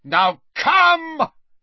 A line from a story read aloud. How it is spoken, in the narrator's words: he shouted at the huge Death Eater behind Harry